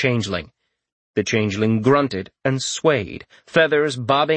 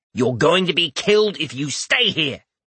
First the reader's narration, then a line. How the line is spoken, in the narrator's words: Rorik snapped